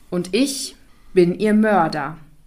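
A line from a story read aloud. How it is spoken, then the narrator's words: Called out. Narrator (German): rief der schwarze Graf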